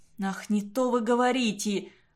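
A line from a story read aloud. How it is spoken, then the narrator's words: Moan. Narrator (Russian): простонал Уваров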